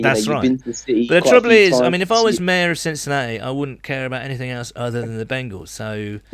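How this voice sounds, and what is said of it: Charming accent. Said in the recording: “You've got a charming accent.”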